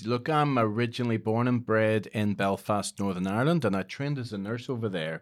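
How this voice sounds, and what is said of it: Belfast accent with Scottish mix. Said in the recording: “you're originally from Belfast, but is there some Scottish mix in there as well?... There absolutely is... So you do hear in my accent a bit of an overlay”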